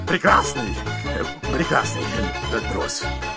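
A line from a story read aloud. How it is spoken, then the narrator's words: Mumbled. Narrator (Russian): бормотал он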